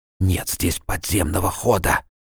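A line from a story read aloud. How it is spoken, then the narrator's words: Shivering whisper. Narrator (Russian): Вздрагивая от холода, проговорил он шепотом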